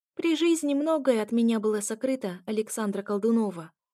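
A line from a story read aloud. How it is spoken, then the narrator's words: Calm reply. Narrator (Russian): отвечал он спокойно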